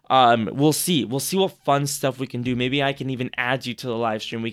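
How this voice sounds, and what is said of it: Very hoarse voice. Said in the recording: “my voice is starting to get very, very hoarse.”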